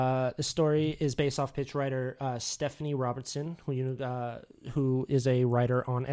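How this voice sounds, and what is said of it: Usual voice. Nothing is said of it.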